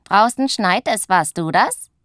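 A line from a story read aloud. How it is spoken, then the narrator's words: Giggling. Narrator (German): Die kleine Hexe Zuckerguss kichert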